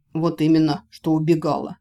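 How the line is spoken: Scoffing grunt. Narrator (Russian): хмыкнул

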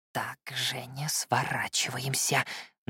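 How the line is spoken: Tense whisper. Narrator (Russian): напряженно шепнул мне Феликс

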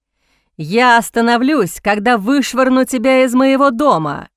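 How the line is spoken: Growling. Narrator (Russian): Прорычал

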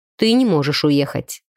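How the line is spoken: Dry. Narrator (Russian): сухо заявил Артем

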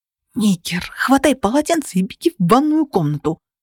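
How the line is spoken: Hissed. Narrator (Russian): прошипела я

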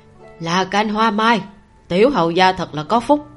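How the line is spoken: Sighing. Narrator (Vietnamese): thở dài nói

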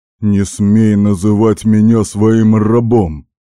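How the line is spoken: Growled. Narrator (Russian): прорычал я

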